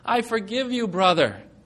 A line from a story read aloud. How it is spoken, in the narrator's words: I cried